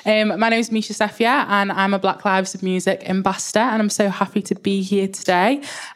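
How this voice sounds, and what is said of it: Liverpool accent. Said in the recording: “I am from Liverpool, so if the accent's a bit hard to understand”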